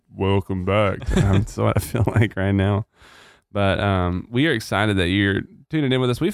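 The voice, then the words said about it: Deeper, sick-sounding voice. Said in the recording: “my voice sounds deeper... you kind of sound sick... It just sounds deeper... you kind of sound like, sick”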